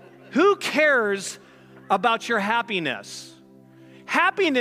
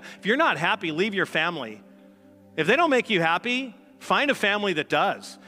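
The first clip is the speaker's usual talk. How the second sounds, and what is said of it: Sarcastic delivery. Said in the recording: “hear the sarcasm in my voice”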